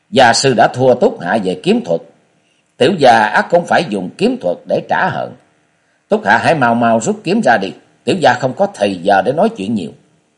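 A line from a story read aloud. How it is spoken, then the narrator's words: Harsh, gritted voice. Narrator (Vietnamese): Tư Đồ Sâm gằn giọng nói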